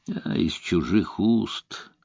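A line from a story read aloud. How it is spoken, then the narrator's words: Muttered. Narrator (Russian): пробормотал Эллери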